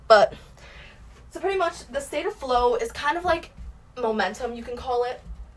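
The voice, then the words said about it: Breathless, out of breath speech. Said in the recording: “I'm out of breath because I just got back from a walk”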